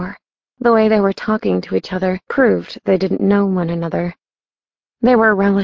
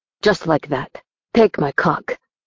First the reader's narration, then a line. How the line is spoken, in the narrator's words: he growled